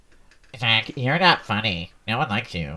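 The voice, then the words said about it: Imitates another person's voice. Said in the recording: “do your best impression of both of us ... That sounds nothing like Matt.”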